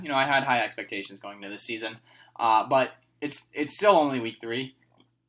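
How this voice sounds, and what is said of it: Sad, downcast voice. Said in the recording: “You can probably tell from my voice that I'm sad.”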